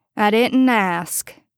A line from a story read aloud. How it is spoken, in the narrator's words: Bobby informed Castiel dryly